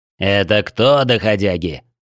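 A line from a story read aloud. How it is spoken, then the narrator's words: Growl. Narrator (Russian): рыкнул Орман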